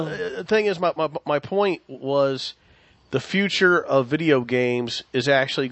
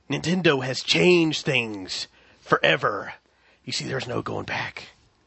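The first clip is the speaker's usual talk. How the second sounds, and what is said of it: Not-great Joker impression. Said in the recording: “that wasn't a great Joker impression”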